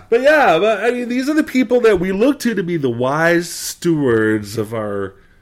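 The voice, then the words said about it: New England accent. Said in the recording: “Here comes the accent ... New England accent”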